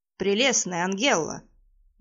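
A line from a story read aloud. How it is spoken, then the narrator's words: Meaningful snort. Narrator (Russian): многозначительно хмыкнул маг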